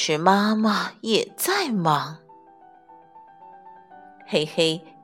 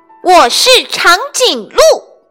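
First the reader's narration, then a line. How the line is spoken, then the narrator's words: Angry shout. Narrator (Chinese): 黑黑很生气，他大叫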